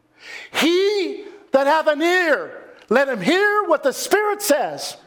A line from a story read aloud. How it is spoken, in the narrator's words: John Wesley cried out